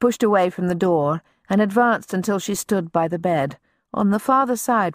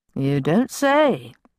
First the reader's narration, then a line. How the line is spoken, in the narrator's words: he murmured